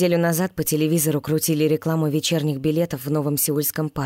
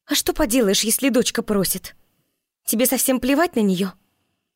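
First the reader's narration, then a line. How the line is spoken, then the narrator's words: Mumbled under breath. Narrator (Russian): пробубнила под нос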